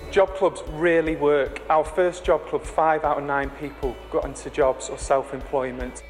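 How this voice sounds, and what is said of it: Yorkshire accent. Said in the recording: “the Yorkshire accents”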